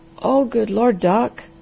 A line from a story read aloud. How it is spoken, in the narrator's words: groaned the Harvester in desperation